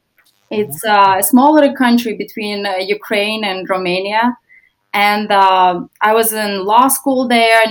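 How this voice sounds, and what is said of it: Foreign accent, not local. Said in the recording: “you have a wonderful accent. I thought it was a Naples accent ... it's not a Naples accent”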